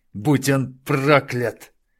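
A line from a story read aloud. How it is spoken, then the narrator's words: Forced through gritted teeth. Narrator (Russian): выдавил сквозь зубы Тарачини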